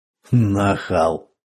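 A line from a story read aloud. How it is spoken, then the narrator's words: Mocking retort. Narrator (Russian): насмешливо бросил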